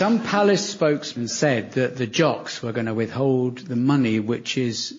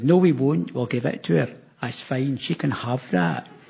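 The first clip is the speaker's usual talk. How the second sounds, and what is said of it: Scottish accent imitating Nicola Sturgeon. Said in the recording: “For listeners in Scotland, that was your accent”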